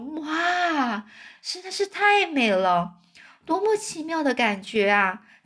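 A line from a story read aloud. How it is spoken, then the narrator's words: Chorus of admiring voices. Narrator (Chinese): 他们异口同声发出赞叹说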